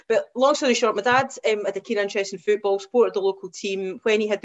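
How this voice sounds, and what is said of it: West Coast Scottish accent. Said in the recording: “my accent. I'm a West Coaster, so born and brought up in Ayr”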